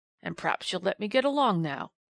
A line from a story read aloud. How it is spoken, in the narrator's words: growled the man surlily